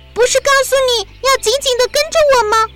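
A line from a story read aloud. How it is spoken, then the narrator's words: Loud shouting. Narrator (Chinese): 丽塔大声的叫着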